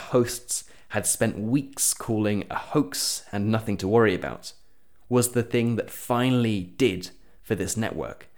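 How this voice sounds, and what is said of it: Non-American English accent. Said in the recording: “I'm not an American, as you can tell from my accent”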